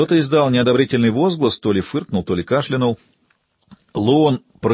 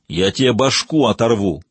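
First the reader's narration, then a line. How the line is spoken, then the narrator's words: Mild growl. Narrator (Russian): прорычал Давида, но без особой враждебности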